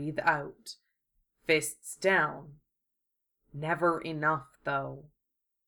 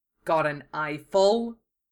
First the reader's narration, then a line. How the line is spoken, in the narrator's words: Wufei snarled